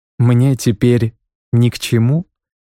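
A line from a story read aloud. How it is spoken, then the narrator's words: Calm. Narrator (Russian): сказал он спокойно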